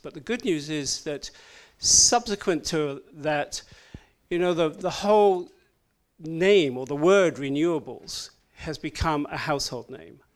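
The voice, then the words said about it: Odd, non-American accent. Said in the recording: “I know I've got an odd accent”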